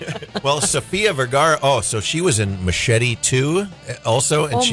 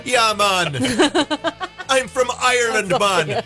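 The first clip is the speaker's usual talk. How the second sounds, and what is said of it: Attempted Irish accent drifting Jamaican. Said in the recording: “They all drift towards Jamaican. ... You're right. Everything comes out.”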